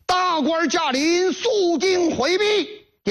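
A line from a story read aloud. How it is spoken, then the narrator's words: Sudden shout. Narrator (Chinese): 突然大喊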